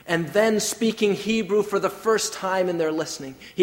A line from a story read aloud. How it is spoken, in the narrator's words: he cried out in flawless Hebrew